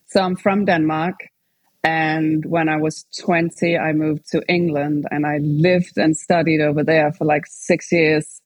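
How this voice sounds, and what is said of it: Hard-to-place accent with British influence. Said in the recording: “attractive, different accent. You also have an accent that's hard to place ... a weird mix now that most people put me in South Africa ... obviously the British influence is there”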